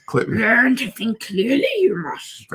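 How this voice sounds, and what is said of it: Good Yoda impression. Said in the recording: “You do a very good impression of Yoda.”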